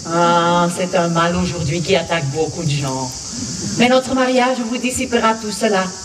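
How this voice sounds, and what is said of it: Speaks French with an accent. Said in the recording (French): “une petite particularité qui s'appelle un accent”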